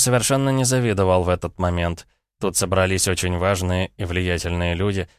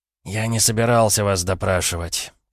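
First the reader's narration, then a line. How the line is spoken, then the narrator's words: Weary, resigned. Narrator (Russian): как-то устало и обреченно произнес мой практически коллега из другой страны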